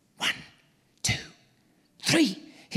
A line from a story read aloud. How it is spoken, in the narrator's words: hissed Joyce